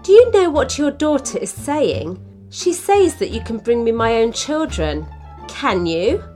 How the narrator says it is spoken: The old woman laughed

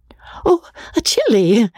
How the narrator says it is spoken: said Rebecca, gasping

